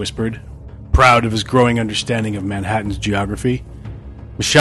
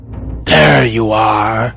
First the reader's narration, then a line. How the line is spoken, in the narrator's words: Madworth hissed